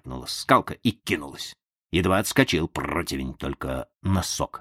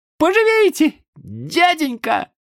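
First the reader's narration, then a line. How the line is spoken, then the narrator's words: Yelled. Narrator (Russian): вопил противень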